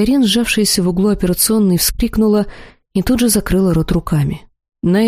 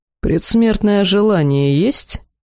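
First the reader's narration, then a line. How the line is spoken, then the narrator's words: Grim and calm. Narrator (Russian): мрачно и совершенно спокойно поинтересовался демон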